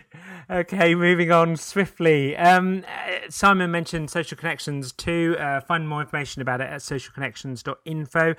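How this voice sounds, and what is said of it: Manchester English accent. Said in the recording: “is from Manchester, right? ... Can you tell by my accent?”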